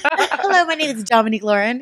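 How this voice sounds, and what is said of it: Polished corporate professional voice. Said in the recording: “in my corporate voice.”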